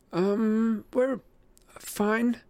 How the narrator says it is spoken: Annabeth stammered

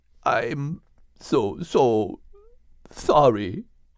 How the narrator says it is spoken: sobbed the bull, tears running down his cheeks

